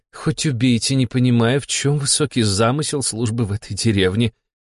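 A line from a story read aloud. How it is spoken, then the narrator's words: Sigh. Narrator (Russian): вздохнула Фанвизина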